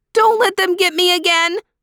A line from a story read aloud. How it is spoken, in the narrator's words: cried Desmond